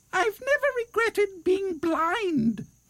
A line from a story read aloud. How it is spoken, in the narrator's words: squeaked the bat